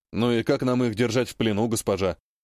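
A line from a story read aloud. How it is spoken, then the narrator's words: Muffled behind visor. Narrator (Russian): глухо произнес из-под низкого забрала боец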